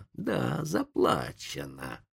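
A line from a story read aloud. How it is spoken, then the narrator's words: Hissed. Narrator (Russian): прошипел индеец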